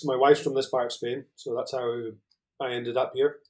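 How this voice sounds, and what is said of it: Mild Scottish accent. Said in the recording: “I'm originally Scottish, as you can probably tell ... probably my accent's mellowed off a little bit”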